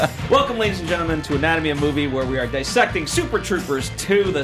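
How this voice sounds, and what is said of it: Usual voice. Nothing is said of it.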